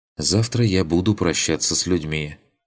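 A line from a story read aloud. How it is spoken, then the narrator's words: Sighing. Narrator (Russian): вздохнула Атрея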